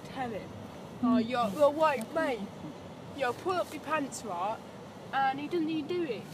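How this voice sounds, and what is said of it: Put-on Essex accent. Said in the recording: “I was doing like an Essex. ... I was doing like an Essex one. ... Accent?”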